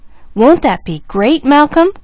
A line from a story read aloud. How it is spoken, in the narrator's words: cried James Jr